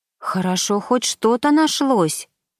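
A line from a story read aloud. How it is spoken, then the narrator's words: Exclaimed. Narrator (Russian): воскликнула Саша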